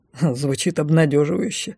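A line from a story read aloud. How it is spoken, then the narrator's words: Wry snort. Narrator (Russian): хмыкнул лорд Лайс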